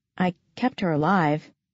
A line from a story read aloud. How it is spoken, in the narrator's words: I mumbled